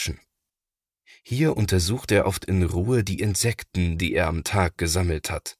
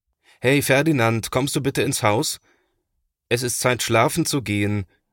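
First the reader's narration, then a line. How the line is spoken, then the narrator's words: Father calling out. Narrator (German): ruft Papa nach ihm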